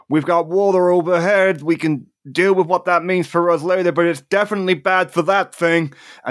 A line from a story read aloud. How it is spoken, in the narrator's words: Reigns will do is he's just going to shout out